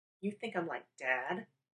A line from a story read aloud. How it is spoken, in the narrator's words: He grumbled